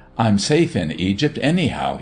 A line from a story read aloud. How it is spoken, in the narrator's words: he laughed